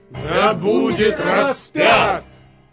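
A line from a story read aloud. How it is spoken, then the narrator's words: Louder crowd shouting. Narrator (Russian): еще сильнее кричали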